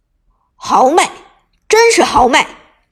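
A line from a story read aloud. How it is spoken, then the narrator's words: Loud laughter. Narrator (Chinese): 汤宇科大声笑道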